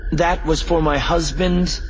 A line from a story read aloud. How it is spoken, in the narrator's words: Leia snapped